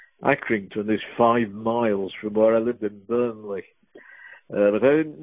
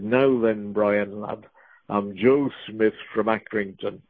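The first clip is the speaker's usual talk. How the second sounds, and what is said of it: Strong Lancashire accent. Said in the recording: “in a strong Lancashire accent”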